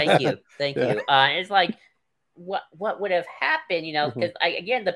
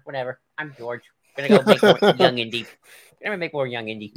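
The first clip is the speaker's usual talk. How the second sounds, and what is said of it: Impression of George Lucas. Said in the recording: “It's a great impression, by the way.”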